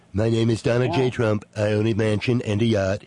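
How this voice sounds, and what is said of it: Impression of Alec Baldwin's Trump. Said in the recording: “that was an impression of Alec Baldwin doing Trump.”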